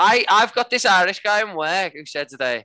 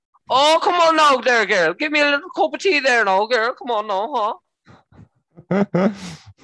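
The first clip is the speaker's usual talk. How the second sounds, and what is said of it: Put-on Irish accent. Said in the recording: “I've got a friend who's Irish called Niall ... Niall talks in a very specific way ... it's the best accent ever ... that is a fucking strange accent ... it's an amazing accent”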